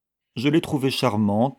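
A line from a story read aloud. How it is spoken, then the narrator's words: Cold reply. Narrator (French): répondit Violette froidement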